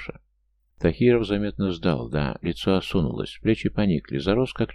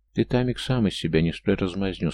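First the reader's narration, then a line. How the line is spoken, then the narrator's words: Calm. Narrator (Russian): спокойно произнес Георгий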